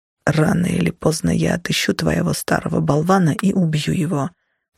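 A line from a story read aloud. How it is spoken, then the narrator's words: Barely audible mutter. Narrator (Russian): пробормотал он так тихо, что я едва расслышала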